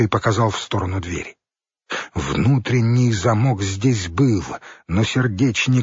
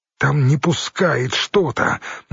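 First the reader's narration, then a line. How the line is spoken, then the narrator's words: Strained wheeze. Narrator (Russian): натужно просипел хорь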